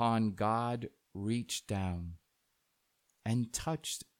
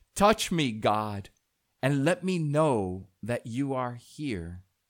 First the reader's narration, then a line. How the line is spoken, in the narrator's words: in desperation, in despair, in desolation, the man cried out